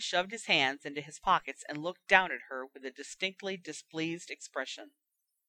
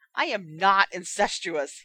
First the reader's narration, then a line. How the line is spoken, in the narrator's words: thundered